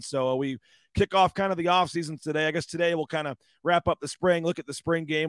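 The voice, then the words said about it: Hoarse voice. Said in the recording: “Dealing with a little bit of a hoarse voice today”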